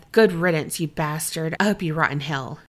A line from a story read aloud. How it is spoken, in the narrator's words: he muttered under his breath